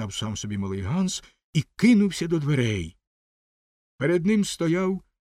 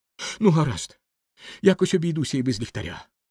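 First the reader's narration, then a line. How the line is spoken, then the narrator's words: Child's exclamation. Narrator (Ukrainian): вигукнув малий Ганс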